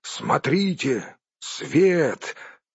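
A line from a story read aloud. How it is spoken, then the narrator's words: Exclaimed. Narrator (Russian): шедший первым Балин воскликнул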